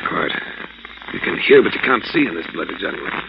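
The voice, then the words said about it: English accent. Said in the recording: “I judge from your friend's accent, he's a countryman of mine. ... I'm an Englishman”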